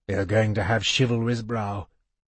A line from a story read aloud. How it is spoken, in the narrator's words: he told the babe softly